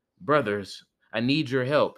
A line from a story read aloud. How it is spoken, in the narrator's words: said